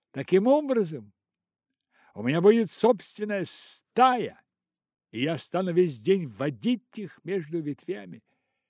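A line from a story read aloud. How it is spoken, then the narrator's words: Shouting at full voice. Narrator (Russian): он закричал во весь голос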